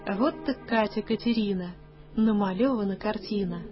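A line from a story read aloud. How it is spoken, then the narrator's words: Gentle speech. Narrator (Russian): ласково проговорил ей вслед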